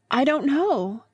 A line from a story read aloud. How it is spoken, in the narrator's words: gasped Lucy